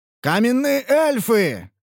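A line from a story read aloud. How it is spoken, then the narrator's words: Shouted. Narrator (Russian): прокричал Ханс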